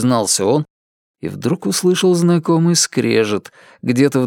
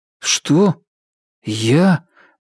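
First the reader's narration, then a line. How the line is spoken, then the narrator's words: Uncertain hesitant start. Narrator (Russian): неуверенно начал Ричард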